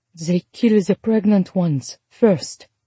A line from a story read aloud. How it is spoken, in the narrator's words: Charlotte said, her voice hollow